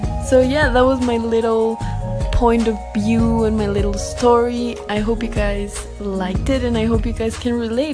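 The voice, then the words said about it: Somewhat harsh accent. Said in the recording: “Sorry for the accent also. I know that it's a bit harsh”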